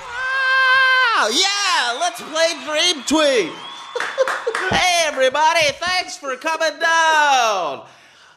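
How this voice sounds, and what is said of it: Game show host voice. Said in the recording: “my game show voice”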